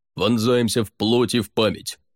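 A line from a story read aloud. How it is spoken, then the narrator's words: Barking, unexpectedly low voice. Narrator (Russian): рявкнул он неожиданно низким голосом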